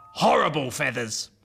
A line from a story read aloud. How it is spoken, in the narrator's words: said the wallaby firmly